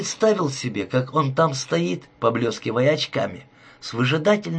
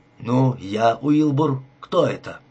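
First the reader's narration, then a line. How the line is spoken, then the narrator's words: Clear, slow speech. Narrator (Russian): Я сказал, четко и медленно выговаривая слова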